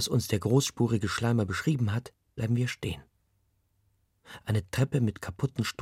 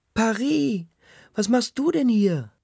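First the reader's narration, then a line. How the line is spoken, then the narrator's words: Woman shrieking. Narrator (German): kreischt eine Frau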